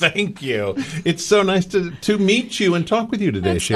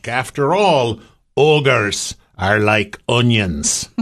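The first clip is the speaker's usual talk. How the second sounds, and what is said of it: Attempted Scottish accent, Shrek. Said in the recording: “my attempt at a Scottish accent ... Very nice.”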